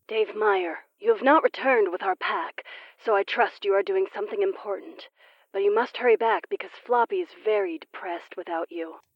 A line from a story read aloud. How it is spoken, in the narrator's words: said and smiled softly